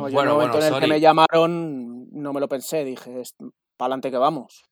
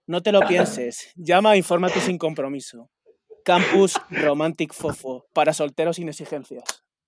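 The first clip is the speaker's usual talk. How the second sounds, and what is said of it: Canary Islands Spanish accent. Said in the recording (Spanish): “ese acento canario indispensable”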